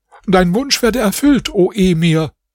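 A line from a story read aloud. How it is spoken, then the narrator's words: Father calling out. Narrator (German): rief der Vater des Mädchens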